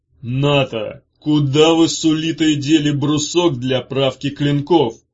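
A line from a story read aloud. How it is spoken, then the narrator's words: Shout. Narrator (Russian): крикнул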